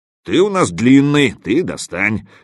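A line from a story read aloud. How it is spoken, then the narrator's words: Angry reply. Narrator (Russian): сердито отозвался напарник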